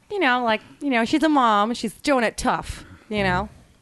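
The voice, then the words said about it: Mock Midwestern Great Lakes mom accent. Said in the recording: “the Great Lakes accent's a little annoying ... Like the Midwestern kind of. ... Like the Midwestern mom. Like that.”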